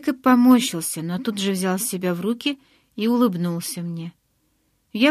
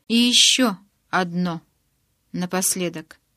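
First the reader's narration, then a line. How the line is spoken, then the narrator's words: Slow. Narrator (Russian): медленно проговорил Эдвард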